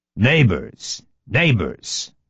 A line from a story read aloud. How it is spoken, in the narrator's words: answered Gustav in a deep voice